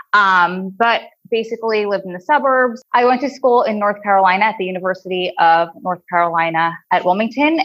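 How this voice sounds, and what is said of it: New Jersey accent. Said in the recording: “my crazy New Jersey drawl accent that I can't get rid of and I hate”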